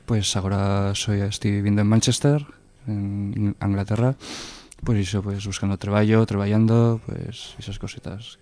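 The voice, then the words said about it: Wintry, cold-affected voice. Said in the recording (Spanish): “Con voz de invierno, ¿eh? ... voz de invierno y de borina.”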